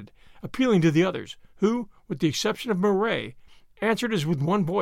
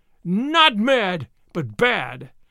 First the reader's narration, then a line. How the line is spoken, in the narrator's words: screamed the vrow